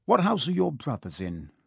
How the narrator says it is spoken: asked Harry

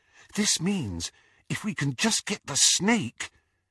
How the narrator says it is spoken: whispered Hermione

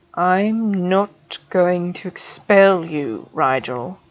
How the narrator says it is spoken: Snape said slowly and clearly

